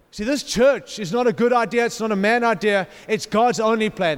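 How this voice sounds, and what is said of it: Noticeable non-native accent. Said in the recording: “Are you understanding my accent? Is it okay?”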